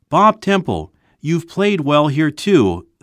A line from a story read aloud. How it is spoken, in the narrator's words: someone in a boat cried